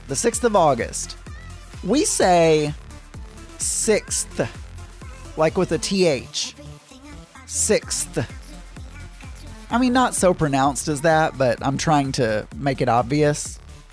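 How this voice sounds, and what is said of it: Southern US accent. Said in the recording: “I am Southern and I do apparently have a Southern accent”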